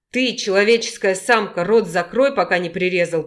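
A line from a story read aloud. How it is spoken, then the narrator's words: Growled. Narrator (Russian): прорычал Геннадий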